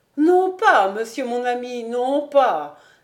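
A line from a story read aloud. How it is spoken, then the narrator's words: Quick, lively exclamation. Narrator (French): s'écria vivement Béchamel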